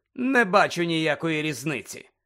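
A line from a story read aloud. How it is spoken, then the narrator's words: Cold. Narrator (Ukrainian): холодно зиркнув і сказав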